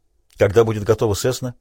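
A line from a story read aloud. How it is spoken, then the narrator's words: Sharp question. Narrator (Russian): резко спросил Крейг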